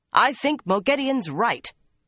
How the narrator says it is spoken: shouted

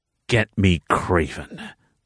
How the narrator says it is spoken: the leader growled

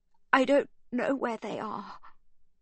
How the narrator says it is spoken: she sobs

